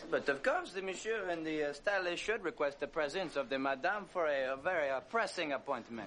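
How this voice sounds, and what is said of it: Poor put-on accent. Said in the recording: “This is not a good accent.”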